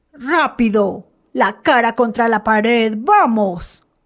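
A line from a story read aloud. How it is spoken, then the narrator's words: Soldier shouting. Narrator (Spanish): gritó el soldado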